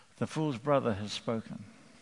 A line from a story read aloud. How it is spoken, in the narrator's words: all the men of Israel murmured, and they said